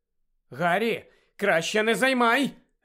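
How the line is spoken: Sharp warning. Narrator (Ukrainian): Різко попередила Герміона

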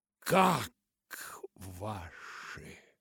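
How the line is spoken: Strained, forced out. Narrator (Russian): только и смогла выдавить из себя мисс Полли

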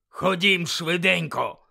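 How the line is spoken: Bark. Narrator (Ukrainian): гаркнув Муді

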